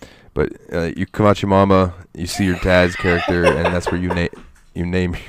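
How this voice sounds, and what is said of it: Usual voice. Nothing is said of it.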